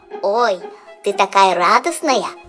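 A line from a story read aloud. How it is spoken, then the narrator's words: Squeak. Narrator (Russian): пропищал Жак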